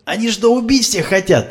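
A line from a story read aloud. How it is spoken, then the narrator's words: Yelling. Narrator (Russian): заорал Леха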